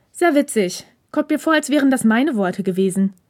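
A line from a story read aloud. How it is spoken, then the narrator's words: Dry reply. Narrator (German): gab Hirakawa trocken zurück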